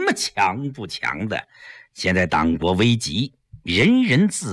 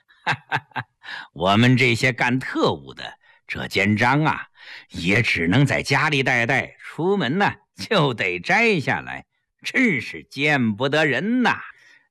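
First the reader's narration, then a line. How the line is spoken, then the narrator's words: Cold, self-mocking laugh. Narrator (Chinese): 江世飞冷笑自嘲地说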